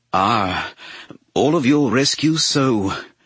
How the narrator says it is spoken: Palpatine gasped breathlessly, entertaining

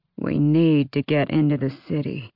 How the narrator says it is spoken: Ansel murmured

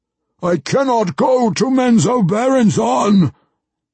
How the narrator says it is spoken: Ertu roared suddenly, his outrage, the outrage of years of banishment, spilling over

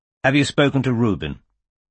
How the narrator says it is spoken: Landry asked Bristow coldly

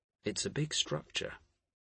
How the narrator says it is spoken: Jophiel said gently

